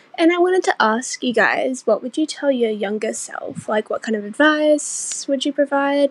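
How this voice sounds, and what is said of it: Australian accent. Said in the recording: “Australia. ... Her accent. ... She's from Australia.”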